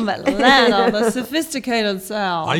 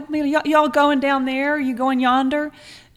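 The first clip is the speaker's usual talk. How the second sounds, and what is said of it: Mild Southern US accent. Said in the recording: “get rid of that accent ... How did you used to talk? ... Real, not extreme ... You're a hillbilly ... You're no Georgia peach ... being from the South”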